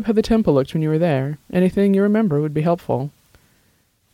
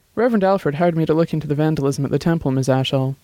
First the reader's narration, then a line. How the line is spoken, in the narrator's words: Dex answered calmly